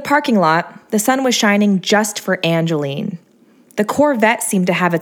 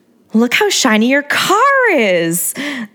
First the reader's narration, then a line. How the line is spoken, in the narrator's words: exclaimed like I was talking to a baby